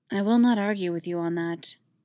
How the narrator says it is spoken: Organa replied softly

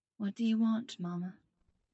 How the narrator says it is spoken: Tony whispers

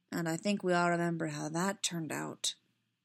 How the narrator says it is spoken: Pyle added grimly

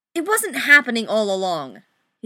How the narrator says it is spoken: he snaps

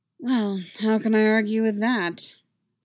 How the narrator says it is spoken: He said dryly

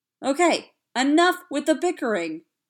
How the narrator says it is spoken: yelled Raggedy Andy from the top shelf

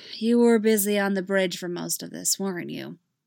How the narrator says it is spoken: She sighed

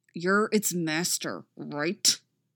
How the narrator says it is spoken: the captain tells him through clenched teeth

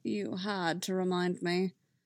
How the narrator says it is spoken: Obi-Wan sighed

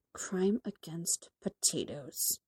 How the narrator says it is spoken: Bruce mutters

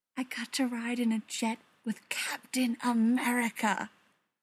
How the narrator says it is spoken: Peter whispered

